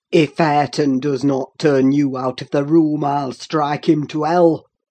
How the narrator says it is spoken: thundered Heathcliff

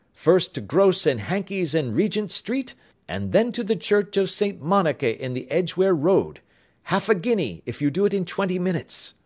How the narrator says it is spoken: shouted

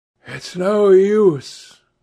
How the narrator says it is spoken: sighed Adrian Singleton

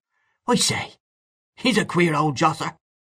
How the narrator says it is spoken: Mahony exclaimed again

